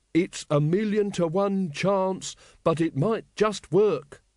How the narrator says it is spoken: added, speaking slowly and distinctly

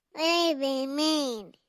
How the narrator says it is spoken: Matthew whined

